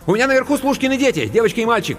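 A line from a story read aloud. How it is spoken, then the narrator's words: Rapid rattling speech. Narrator (Russian): протараторила Анка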